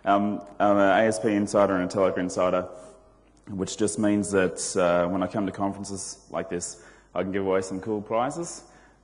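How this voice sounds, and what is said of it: Slightly flat voice with a cold. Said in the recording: “I've got a bit of a cold, so I'm a little bit flat this morning”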